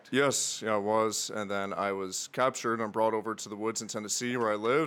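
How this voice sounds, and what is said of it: Mixed Northern Irish and Tennessee accent. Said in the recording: “Where's that accent? ... somewhere ... between Tennessee and, and Irish. Northern Ireland, yeah. Horrible combination of the two.”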